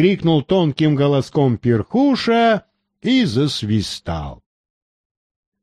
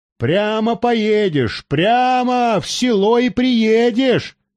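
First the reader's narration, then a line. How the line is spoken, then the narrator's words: Shout. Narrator (Russian): крикнул Бахтияр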